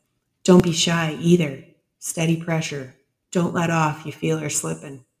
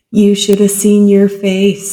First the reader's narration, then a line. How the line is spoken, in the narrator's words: she laughed